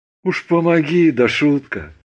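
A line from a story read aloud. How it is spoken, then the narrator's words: Sad voice. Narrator (Russian): грустно сказал Андрей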